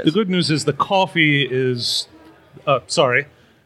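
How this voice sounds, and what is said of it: Put-on British accent. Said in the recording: “I don't know why I'm doing a British accent at the moment... you're just copying me”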